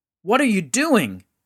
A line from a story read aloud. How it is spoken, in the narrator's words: yelled at the men as he stormed out